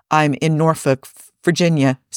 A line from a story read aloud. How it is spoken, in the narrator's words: says the soldier